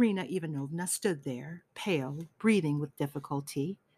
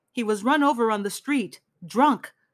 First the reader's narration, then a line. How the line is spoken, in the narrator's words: cried someone from the entryway